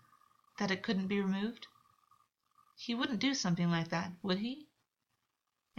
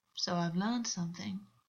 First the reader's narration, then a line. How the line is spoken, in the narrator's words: August said smoothly, sounding smug